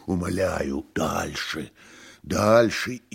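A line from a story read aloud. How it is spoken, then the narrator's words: Exclaimed. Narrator (Russian): воскликнул Иван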